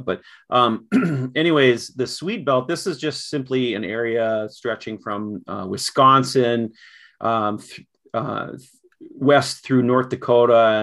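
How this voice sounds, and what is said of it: Upper Midwest accent, almost Canadian. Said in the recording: “I'm sure you hear sort of my accent here. I've probably got an accent that almost sounds more Canadian”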